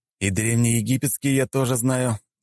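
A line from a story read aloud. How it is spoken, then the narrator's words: Sighed. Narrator (Russian): вздохнул я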